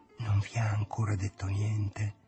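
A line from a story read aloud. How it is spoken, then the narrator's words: Hushed whisper. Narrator (Italian): domandato bisbigliando, come si fa in chiesa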